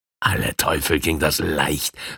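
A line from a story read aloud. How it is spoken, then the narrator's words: Breathy thief. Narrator (German): hauchte der Dieb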